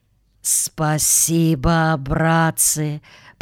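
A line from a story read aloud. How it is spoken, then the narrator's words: Whisper. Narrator (Russian): прошептал дядя Федя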